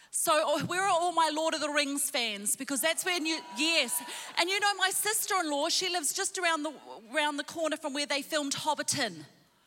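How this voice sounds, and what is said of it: New Zealand accent. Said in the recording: “you can probably tell by my accent I'm not from around here... I was born in New Zealand.”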